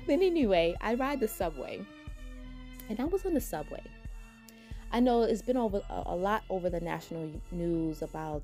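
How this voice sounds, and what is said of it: New York accent. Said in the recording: “my twang, because you know, New Yorkers got, you know what I'm saying? We got our own little twang”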